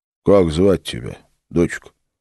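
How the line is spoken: Quiet, casual question. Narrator (Russian): негромко спросил Филипп, словно бы невзначай, чтобы не спугнуть

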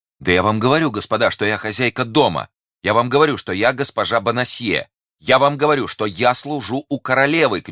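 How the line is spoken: Distressed shouting. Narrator (Russian): кричала несчастная женщина

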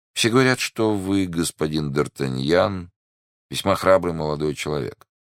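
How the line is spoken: Plain. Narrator (Russian): сказал посетитель

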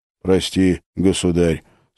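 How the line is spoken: Agreeing sigh. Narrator (Russian): согласно вздохнул Филипп

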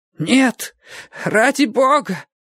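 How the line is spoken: Hoarse exclamation. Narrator (Russian): воскликнула хриплым голосом

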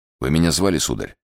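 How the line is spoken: Weak but calm voice. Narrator (Russian): сказал Атос слабым, но совершенно спокойным голосом

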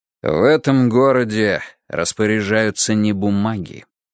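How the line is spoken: Calm objection. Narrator (Russian): возразил он спокойно

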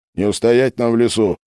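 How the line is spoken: Grim announcement. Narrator (Russian): мрачно сообщил Головин

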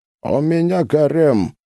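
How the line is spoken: Dull, muffled reply. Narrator (Russian): глухо ответил Кайбулат

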